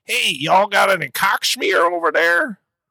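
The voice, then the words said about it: Put-on Southern accent. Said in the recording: “I was trying to do a Southern accent ... it's supposed to be a Southern accent.”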